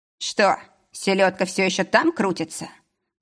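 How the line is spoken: Rough question. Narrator (Russian): спросил грубо

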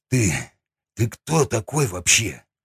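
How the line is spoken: Breathless exhale. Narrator (Russian): Выдохнул

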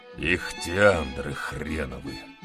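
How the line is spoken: Displeased grumble. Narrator (Russian): буркнул недовольный Талалаев

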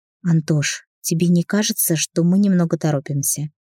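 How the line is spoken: Breathless whispered question. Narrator (Russian): прерывистым шепотом спросила она

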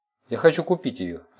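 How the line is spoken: Plain. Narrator (Russian): ответил Тим

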